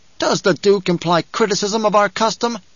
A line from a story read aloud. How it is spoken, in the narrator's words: The water shipper asked in an angry voice